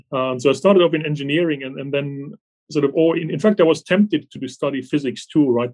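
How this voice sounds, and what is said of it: German accent. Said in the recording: “You can probably hear from my accent that I'm not from this country originally. ... originally in Germany”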